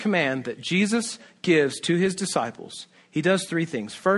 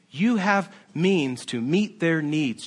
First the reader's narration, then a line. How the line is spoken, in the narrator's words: Jesus says